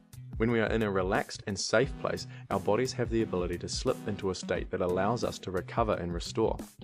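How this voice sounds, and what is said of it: British accent. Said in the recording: “the British accent makes things sound more intelligent”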